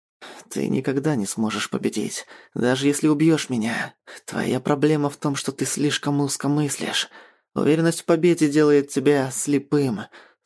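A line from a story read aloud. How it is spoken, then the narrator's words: Pronouncing through gritted teeth. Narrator (Russian): сквозь зубы изрекает Мариан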